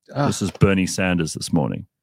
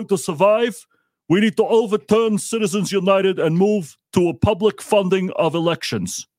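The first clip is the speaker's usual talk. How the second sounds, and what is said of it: Imitates another person's voice. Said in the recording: “that was a great impression.”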